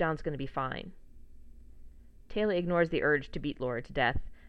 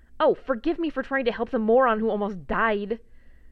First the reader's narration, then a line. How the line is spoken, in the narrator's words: John groans dramatically